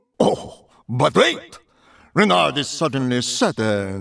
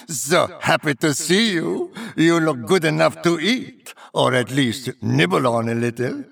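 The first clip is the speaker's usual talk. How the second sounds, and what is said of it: Soft crooning heavy fake French accent. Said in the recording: “crooned softly with a heavy, unapologetic, faux French accent”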